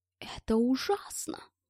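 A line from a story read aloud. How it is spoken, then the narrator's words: Muttered in matching tone. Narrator (Russian): в тон Мэтт пробормотал Гельмут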